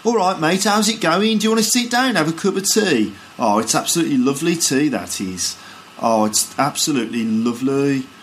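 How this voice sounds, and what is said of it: Birmingham accent, sing-song rising-falling intonation. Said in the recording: “in Birmingham, people sort of, you know, they sort of speak a bit like this ... in Birmingham, the accent goes up and down like that ... people sort of go up and down at the end of their sentences like that”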